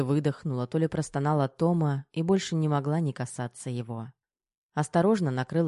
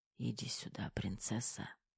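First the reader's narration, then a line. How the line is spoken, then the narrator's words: Barely audible whisper. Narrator (Russian): Едва различимо прошептал Кирилл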